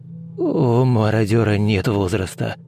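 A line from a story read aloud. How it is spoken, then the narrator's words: Muffled male reply. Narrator (Russian): глухо отозвался мужчина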